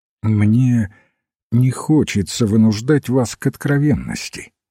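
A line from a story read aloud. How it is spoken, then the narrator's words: Very calm. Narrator (Russian): сказал очень спокойно отец Браун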